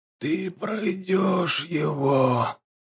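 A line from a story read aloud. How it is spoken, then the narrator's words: Barely audible old man. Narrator (Russian): едва слышно закончил старец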